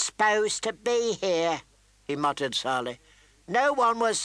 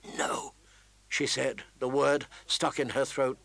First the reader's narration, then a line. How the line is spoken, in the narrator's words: the merest whisper